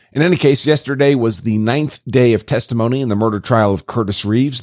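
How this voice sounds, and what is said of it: Hoarse voice. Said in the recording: “My apologies for the hoarse voice, and must have picked up a bug someplace.”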